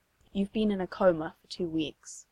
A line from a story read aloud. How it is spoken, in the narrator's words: Hohenheim says softly